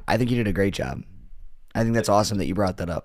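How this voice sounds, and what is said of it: Strained, worn-out voice. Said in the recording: “save your voice, man ... my voice is like uh, showing everybody how my body felt the last few days”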